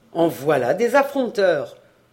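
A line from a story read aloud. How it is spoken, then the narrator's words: Growled. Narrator (French): gronda Kervarec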